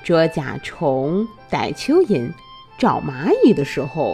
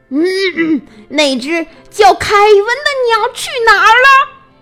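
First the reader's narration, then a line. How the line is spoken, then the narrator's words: Shouting. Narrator (Chinese): 易老师怎么大叫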